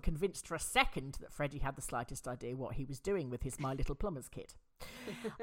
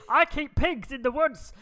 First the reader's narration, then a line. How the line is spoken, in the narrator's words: Rex, who sounded completely mad and shouted